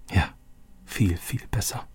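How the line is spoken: Quiet. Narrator (German): sagte Roberto leise

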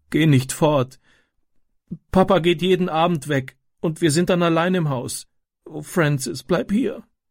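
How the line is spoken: Sobbing. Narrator (German): schluchzte sie

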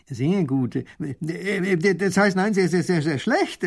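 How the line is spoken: Stuttering. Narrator (German): stottert der Baron

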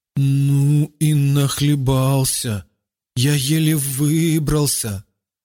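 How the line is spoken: Stammering. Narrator (Russian): Заикаясь, он проговорил

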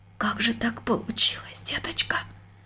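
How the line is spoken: Near-whispered question. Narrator (Russian): почти шепотом спросила она дочку

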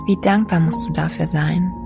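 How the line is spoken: Plain. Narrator (German): sagte ich

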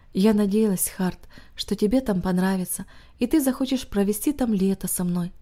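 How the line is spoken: Heavy sigh, worried. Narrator (Russian): тяжело вздохнув, она сказала

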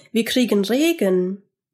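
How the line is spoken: Called out. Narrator (German): rief Georg

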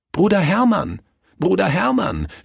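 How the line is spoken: Two voices shouting together. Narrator (German): schrien Kurt und Willi gemeinsam

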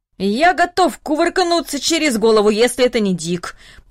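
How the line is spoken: Grumbled under breath. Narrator (Russian): пробурчал дедушка Даниил себе под нос

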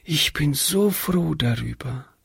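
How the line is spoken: Whispering. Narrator (German): flüsterte Hannchen

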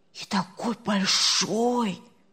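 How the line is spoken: Whispering. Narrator (Russian): зашептали с другой стороны кровати

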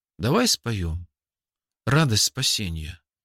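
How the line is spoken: Quiet suggestion. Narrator (Russian): тихо предложил

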